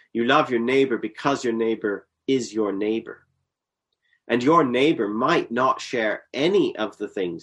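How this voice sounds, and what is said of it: Canadian accent. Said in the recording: “accent, Canadian accent,”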